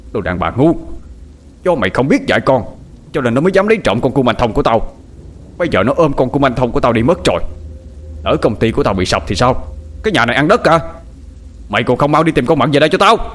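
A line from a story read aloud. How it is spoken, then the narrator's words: Furious. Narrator (Vietnamese): ông Tuấn giận dữ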